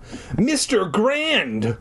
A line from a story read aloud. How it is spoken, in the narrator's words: I exclaimed